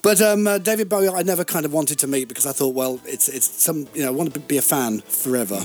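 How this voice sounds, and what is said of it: Breathy, slightly posh northern English accent. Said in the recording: “you've got a lovely voice. Very breathy. ... It's got a bit northern, a little bit little bit northern, a bit London-y. ... It's a Southport accent. ... It's a bit posh, but a bit northern.”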